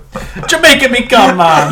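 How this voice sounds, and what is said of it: Put-on Jamaican accent. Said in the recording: “Jamaican accent”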